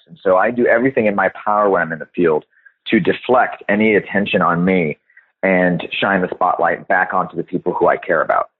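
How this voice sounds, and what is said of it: American accent. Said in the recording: “I have an American accent. It's pretty obvious.”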